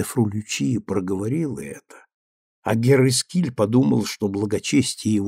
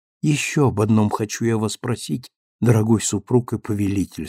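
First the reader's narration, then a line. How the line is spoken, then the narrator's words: Plain. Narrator (Russian): сказала она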